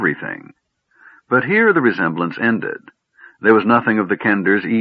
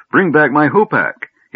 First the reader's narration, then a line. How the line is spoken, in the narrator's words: He cried